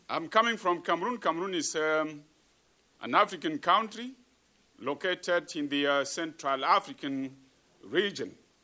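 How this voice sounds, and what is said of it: African accent. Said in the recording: “you can manage the African accent, the global African accent.”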